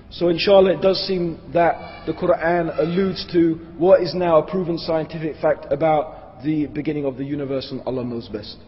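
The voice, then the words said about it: Strained, failing voice. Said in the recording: “as you can tell my voice is giving up on me here a bit”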